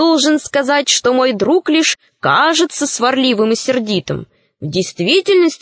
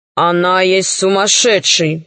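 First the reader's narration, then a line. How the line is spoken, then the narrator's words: Tiger grumbling. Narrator (Russian): проворчал тигр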